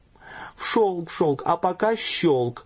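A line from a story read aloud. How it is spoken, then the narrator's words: Smiling through tears. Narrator (Russian): улыбнулась сквозь слезы матушка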